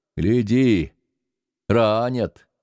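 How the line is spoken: Smirking. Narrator (Russian): усмехнулся Артамонов

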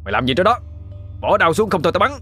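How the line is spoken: Soldier shouting. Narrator (Vietnamese): lính tập quát lên

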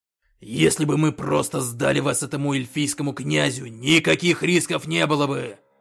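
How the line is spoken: Growl. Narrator (Russian): прорычал Когтеклык

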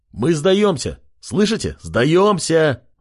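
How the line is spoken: Shouted. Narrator (Russian): выкрикнул он

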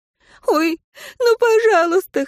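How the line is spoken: Whimpering woman. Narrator (Russian): хныкала женщина

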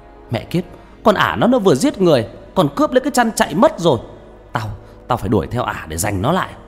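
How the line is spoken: Two voices yelling together. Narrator (Vietnamese): Khanh và Toàn đồng thời gào lên

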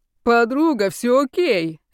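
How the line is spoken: Cheerful reassurance. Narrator (Russian): радостно заверил ее темные силы

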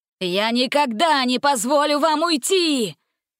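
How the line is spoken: Roaring. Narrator (Russian): взревел он

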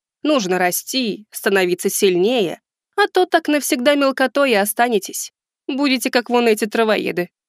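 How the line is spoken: Smirking snort. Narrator (Russian): Хмыкнув она

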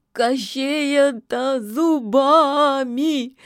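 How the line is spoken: Breaking down sobbing. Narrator (Russian): не выдержала яга, давая волю рыданием

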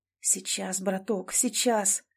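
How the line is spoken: Muttered inwardly. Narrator (Russian): мысленно бормотал он

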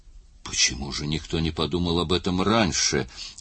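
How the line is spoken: Whisper. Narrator (Russian): прошептал Л

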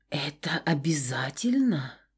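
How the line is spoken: Hoarse question. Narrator (Russian): спросила хрипко

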